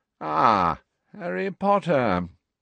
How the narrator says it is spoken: gave a long yawn

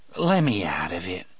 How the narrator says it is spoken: he said in a placatory voice, a voice too sane and too reasonable to trust

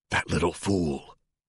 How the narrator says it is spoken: a woman at Pierce's table whispered

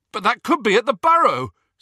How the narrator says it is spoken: said Ron loudly

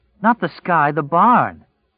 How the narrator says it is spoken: Her voice was close and tight with excitement

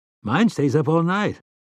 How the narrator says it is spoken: Eddie said brightly

